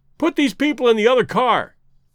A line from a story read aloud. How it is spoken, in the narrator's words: shouted the stranger to Clayton